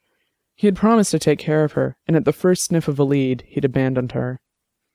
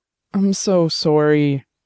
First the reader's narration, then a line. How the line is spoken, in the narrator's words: he said, his voice cracking